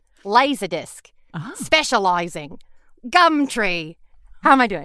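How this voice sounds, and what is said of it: Put-on Australian accent. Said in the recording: “How's my Australian accent? ... that is really good. It's good in what I would consider like kind of a, you know, cheap comedy way”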